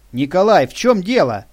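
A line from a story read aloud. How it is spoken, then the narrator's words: Shout. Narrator (Russian): крикнул Алан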